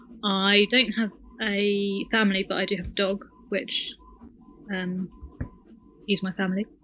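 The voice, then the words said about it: British accent. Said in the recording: “I live in the UK, as you can tell by my accent.”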